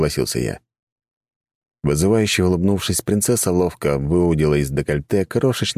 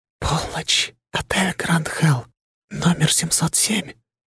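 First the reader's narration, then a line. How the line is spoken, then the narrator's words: Whisper in ear. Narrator (Russian): шепнула она мне на ухо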